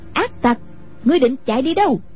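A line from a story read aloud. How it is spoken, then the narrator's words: Shouting. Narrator (Vietnamese): Anh cô quát lớn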